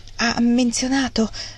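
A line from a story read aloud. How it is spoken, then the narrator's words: Barely audible. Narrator (Italian): chiese Margaret con voce quasi impercettibile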